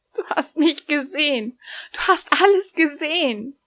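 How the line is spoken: Whimpering. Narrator (German): wimmerte sie

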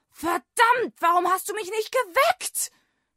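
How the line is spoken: Shouting. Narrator (German): schrie er seinen Wecker an

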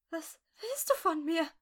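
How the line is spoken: Whimpering. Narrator (German): wimmerte sie

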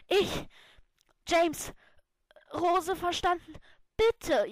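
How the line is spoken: Gasped breathlessly. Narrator (German): japste ich atemlos

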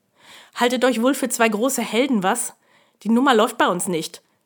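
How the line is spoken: Barking. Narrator (German): bellte er

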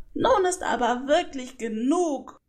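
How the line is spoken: Deeply annoyed shout. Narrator (German): rief sie zutiefst verärgert

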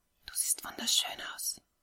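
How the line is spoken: Whisper in ear. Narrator (German): flüsterte Ray ihr ins Ohr

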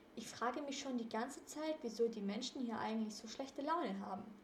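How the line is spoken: Murmured. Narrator (German): murmelte Justus

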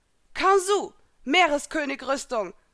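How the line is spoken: Calling out. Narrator (German): rief Elsa

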